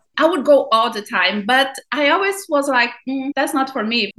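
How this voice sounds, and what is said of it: Thick Brazilian-accented English. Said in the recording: “Because of my English, I have a thick accent... I'm not American... Not strong like mine”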